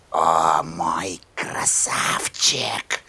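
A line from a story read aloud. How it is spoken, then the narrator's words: Whisper. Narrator (Russian): прошептала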